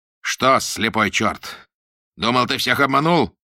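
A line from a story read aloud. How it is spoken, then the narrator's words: Shouting. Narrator (Russian): прокричал фон Дассель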